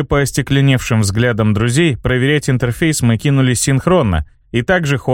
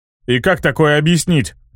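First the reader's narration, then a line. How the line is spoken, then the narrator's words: Grumbled by bomber. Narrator (Russian): проворчал бомбовоз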